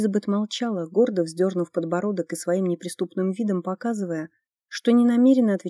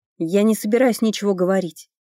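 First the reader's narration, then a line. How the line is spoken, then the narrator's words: Snapping retort. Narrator (Russian): огрызнулась она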